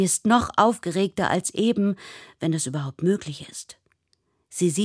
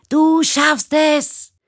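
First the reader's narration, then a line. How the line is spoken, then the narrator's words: Shout. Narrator (German): Sie schreit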